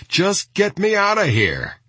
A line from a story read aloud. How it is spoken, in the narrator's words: Wasden was yelling